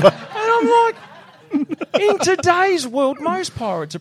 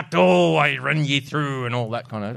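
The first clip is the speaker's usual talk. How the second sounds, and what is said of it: Bad pirate accent, slightly Irish. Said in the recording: “my shit accent of a bloody pirate ... pirate sounding like the slightly Irish”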